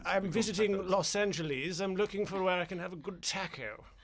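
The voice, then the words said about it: Cartoonish upper-class British accent. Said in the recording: “Can you do a British accent? ... I can only do really cartoonish ones. ... I can be a bit sort of upper class.”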